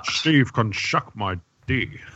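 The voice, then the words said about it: Sean Connery impression. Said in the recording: “That's a shit Connery impression... It was actually a very good Connery impression.”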